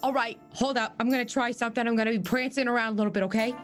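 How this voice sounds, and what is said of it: Put-on New York accent. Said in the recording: “She also has a New York accent.”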